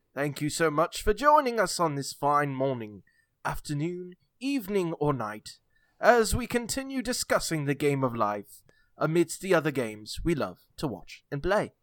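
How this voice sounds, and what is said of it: Put-on British accent drifting. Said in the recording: “I'm going to stop speaking with a British accent ... Went from Australian to like redneck in half a ... Second.”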